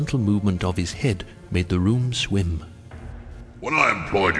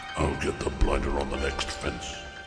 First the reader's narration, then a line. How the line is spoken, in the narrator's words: he muttered